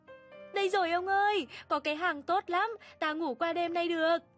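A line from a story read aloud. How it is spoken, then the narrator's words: Sudden joyful cry. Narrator (Vietnamese): Lát sau chợt reo lên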